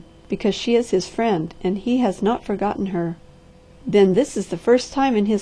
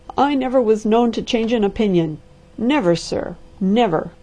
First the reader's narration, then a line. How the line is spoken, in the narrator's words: cried the testy voice